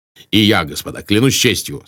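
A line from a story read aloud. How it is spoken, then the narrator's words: Plain. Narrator (Russian): сказал граф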